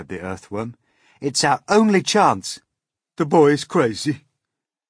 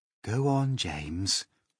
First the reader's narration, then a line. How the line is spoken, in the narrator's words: the ladybird said gently